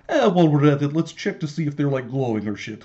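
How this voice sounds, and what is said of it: Put-on Russian accent. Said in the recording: “That's a pretty good accent.”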